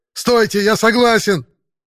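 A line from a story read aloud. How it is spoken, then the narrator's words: Fat man yelling. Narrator (Russian): завопил толстяк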